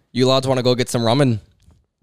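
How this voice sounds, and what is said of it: Put-on Irish accent. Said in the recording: “Do an Irish accent here. ... That's pretty good.”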